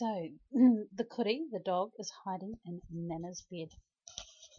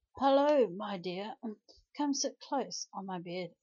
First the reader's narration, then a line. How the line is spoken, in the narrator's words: Cuddy coughed and croakily said